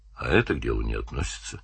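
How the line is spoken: Calm. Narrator (Russian): сказал Данил спокойно

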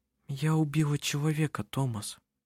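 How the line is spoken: Said quietly. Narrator (Russian): она тихо произнесла

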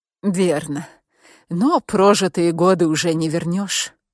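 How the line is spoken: Sad. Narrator (Russian): печально проговорила Петра

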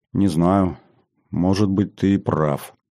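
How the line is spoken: Said uncertainly. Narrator (Russian): неуверенно сказала

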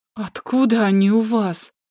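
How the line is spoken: Breathless exhale. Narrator (Russian): выдохнула

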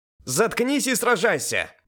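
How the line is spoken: Angry female shout. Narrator (Russian): гневно крикнула Элис

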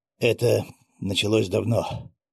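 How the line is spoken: Sigh. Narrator (Russian): вздохнул Дмитрий Васильевич

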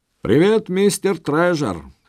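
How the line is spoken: Cheerful exclamation. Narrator (Russian): бодро воскликнул Стефан

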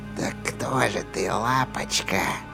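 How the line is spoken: Whisper. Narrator (Russian): прошептала Рия

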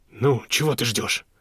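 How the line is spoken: Sharp scolding shout. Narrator (Russian): прикрикнул на нее Фредди

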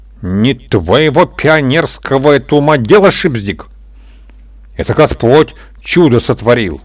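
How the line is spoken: Stern old woman. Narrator (Russian): строго ответила старушка

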